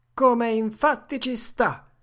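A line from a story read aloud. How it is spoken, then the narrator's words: Theatrical exclamation. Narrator (Italian): esclamò Tom, con un bel effetto teatrale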